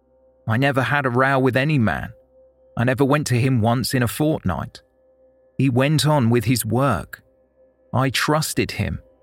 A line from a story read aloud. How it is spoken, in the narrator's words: Potter said